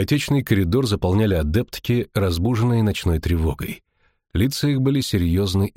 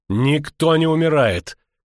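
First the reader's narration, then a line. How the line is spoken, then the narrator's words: Furious shout. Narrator (Russian): крикнула чародейка, бледнее от бешенства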